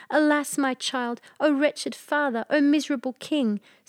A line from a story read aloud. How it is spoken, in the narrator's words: Sobs choked his utterance